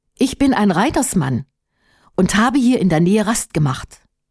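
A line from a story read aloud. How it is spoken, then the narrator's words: Plain. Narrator (German): antwortete Erhard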